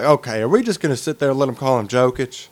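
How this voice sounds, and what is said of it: Weak impression of Bontemps. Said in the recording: “my Bontemps impression ... It was not great.”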